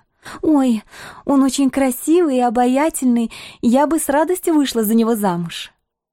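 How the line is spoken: Timid answer. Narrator (Russian): Почувствовав угрозу в моем голосе, она робко ответила

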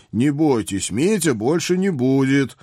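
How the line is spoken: Loud promise. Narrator (Russian): громко пообещал я

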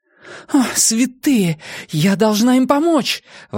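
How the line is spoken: Exclamation. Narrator (Russian): воскликнула Нина

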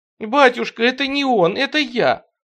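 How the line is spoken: Sobbing. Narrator (Russian): рыдал Тихон

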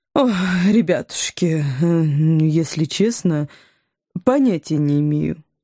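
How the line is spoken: Sympathetic woman's sigh. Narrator (Russian): сочувственно вздохнула женщина

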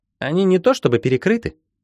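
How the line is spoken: Frivolous giggle. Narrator (Russian): совершенно несерьезно хихикнула Ирина

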